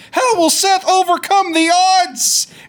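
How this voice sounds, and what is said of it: Michael Cole impression. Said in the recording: “That was a pretty good impression.”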